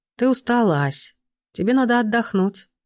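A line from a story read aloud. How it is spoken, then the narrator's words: Reproachful. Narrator (Russian): с укором сказал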